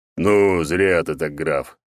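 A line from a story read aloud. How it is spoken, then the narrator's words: Deep booming bass. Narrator (Russian): пробасил Черномор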